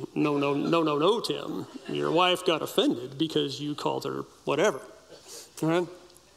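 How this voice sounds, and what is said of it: Imitates another person's voice. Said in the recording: “My best impersonation.”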